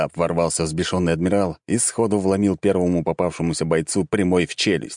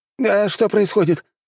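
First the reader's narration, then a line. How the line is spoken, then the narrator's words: Whining. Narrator (Russian): заскулили те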